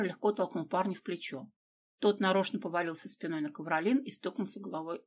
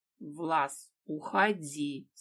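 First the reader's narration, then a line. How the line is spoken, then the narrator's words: Through clenched teeth. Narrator (Russian): сквозь зубы процедила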